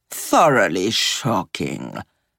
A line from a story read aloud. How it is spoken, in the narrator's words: murmured Gigi